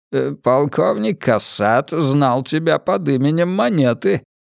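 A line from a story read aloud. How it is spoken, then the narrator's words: Muttered. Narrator (Russian): пробормотал Селен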